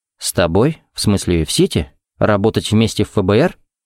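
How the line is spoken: Calm voice, hidden agitation. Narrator (Russian): Уточнил он своим чертовым спокойным голосом

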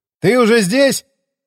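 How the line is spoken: Shouted from below. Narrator (Russian): крикнул я снизу лестницы

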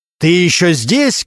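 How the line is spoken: Loud bark. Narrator (Russian): громко рявкнул Регинский

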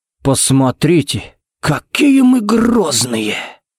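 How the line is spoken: Sighing. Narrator (Russian): вздохнул Джаред

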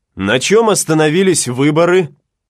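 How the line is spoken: Loud question. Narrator (Russian): громко спросил Гатлинг

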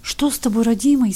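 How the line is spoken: Frightened old woman babbling. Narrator (Russian): испуганно лепетала старуха

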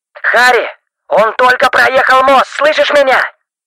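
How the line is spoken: Shouting into phone. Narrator (Russian): Стив буквально кричал в трубку

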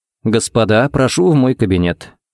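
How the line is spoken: Calm invitation. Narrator (Russian): пригласил спокойно

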